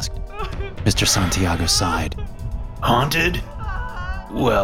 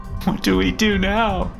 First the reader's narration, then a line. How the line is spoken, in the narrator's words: Emily said through her sobs